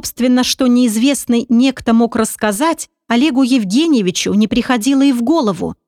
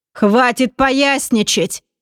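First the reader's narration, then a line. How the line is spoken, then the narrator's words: Irritated demand. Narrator (Russian): Раздраженно потребовал Пресвятейший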